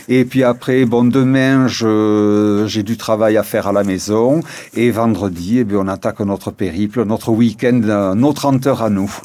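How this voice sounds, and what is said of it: Sing-song Réunion accent. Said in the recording (French): “J'adore cet accent chantant, la Réunion”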